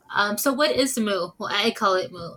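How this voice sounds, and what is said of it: Imitates another person's voice. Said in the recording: “in my best Philip DeFranco voice.”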